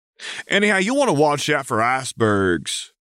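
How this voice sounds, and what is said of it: Bad American accent. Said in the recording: “work on that American accent. It's positively horrid.”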